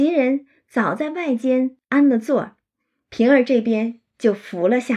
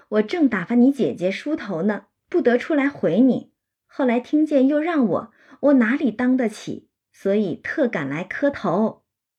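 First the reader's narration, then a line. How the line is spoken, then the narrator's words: Laughing. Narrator (Chinese): 平儿就笑说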